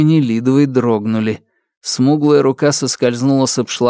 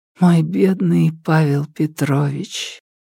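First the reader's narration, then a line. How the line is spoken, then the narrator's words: Whisper. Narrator (Russian): прошептала Нелидова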